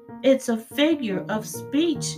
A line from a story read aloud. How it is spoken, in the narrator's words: shouted Eugenia